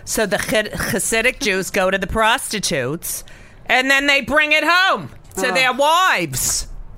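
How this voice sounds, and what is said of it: Imitates another person's voice. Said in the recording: “talk like my mother”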